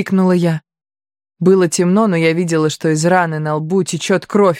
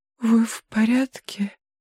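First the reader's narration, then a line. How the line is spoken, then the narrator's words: Whispered. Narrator (Russian): прошептала я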